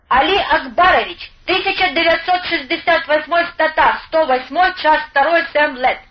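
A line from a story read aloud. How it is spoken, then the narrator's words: Thin accented young voice. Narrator (Russian): черноволосого паренька лет 20, который тонким голоском с восточным акцентом отрапортовал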